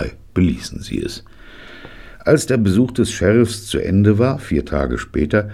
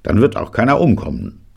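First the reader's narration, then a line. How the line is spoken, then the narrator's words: Barking. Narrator (German): bellte Jake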